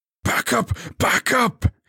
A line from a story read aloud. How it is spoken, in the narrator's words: he bellowed